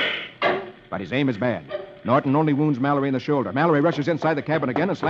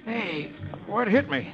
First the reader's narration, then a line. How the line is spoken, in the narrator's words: Roy, who has just regained consciousness, moans